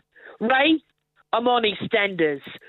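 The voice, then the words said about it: Put-on English accent. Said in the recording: “I can do it in an accent. ... So my accent is me impersonating my dad because he's English.”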